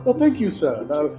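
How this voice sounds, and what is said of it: Put-on old-timey British accent. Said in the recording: “my old timey British accent”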